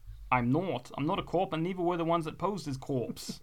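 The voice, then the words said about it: Put-on accent. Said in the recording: “Apologise for the accent.”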